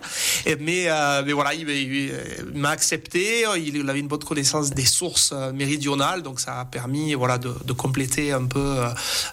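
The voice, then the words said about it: Southern French accent. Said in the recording (French): “vous avez bel accent du Sud”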